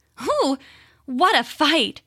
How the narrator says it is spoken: she said, panting as though she were very tired

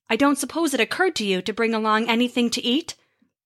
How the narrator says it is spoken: Thor grunted

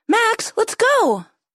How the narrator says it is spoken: yelled Corley

